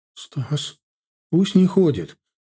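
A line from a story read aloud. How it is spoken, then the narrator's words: Frightened. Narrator (Russian): испуганно проговорил Миша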